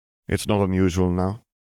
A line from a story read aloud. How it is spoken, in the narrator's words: Charles sighed